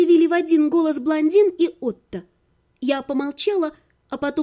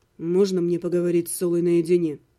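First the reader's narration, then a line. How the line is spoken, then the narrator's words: Quiet question. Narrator (Russian): спросил Ирга тихо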